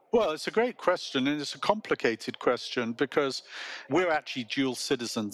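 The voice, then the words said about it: British accent. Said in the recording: “has a very nice British accent”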